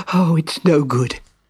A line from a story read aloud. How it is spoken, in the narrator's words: he panted